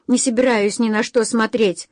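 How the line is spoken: Snapping retort. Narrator (Russian): огрызнулась она

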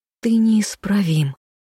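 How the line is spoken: Hissed. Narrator (Russian): с губ Левелин сорвалось шипение

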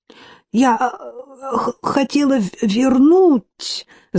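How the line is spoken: Pale, frightened stammer. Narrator (Russian): заикалась бледная до синевы

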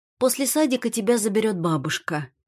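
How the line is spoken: Calm. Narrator (Russian): говорю спокойно

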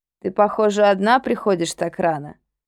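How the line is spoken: Mumbling. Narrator (Russian): промямлил он

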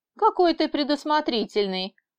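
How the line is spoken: Laughing. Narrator (Russian): рассмеялась я

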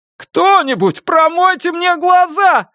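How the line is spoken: Indignant wail. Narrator (Russian): с негодованием завопил Дженсен

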